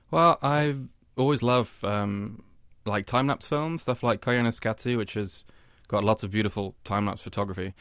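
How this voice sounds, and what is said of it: British English accent. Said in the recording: “I can detect from that accent of yours that you're not from New York originally ... I'm from the UK.”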